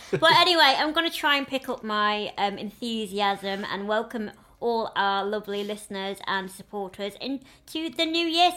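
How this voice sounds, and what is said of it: Northern English accent. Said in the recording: “if you hear a change in my accent ... You sound proper northern.”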